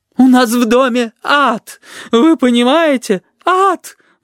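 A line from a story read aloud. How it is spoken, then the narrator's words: Sobbing exclamation. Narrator (Russian): восклицала женщина, не переставая всхлипывать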